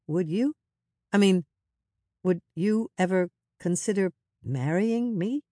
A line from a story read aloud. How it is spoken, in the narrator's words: he stammered